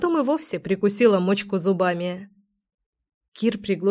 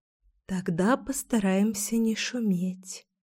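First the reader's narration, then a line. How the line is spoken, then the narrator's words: Intimate whisper. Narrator (Russian): зашептала я, прижавшись к любимому уху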